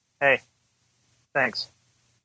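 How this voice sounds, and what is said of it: Low-energy imitation of another person's voice. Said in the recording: “my Jaden Smith impression ... That's about spot as much on. Energy as he's giving this role.”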